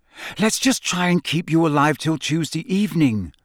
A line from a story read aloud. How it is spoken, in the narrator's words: she said desperately